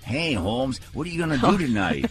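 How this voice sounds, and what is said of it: Silly bunny character voice. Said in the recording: “That's the way the bunny talks. ... That's the bunny's voice.”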